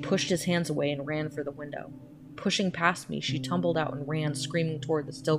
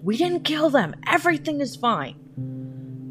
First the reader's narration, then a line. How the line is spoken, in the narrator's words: They both continued shouting